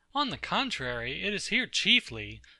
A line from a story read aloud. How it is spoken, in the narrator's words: cried Philo